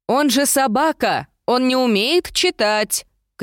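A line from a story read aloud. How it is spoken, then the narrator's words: Shouting after someone. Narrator (Russian): крикнула я вдогонку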